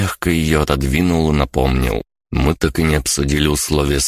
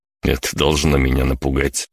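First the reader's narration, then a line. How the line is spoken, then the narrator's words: Smirking snort. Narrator (Russian): я хмыкнул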